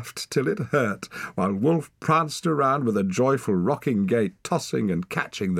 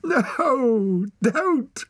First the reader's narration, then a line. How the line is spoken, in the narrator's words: cried Wren, clutching her sides